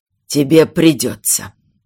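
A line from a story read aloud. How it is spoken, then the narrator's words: Father's gloomy grumble. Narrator (Russian): мрачно буркнул отец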